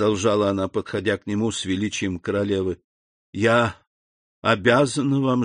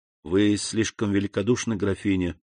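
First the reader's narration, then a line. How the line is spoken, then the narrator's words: Unusually soft, respectful. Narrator (Russian): сказал необычайно мягко и почтительно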